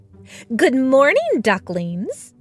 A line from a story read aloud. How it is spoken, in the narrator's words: Inez said brightly